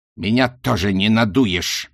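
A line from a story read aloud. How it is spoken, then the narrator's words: Bark. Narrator (Russian): рявкнул Рок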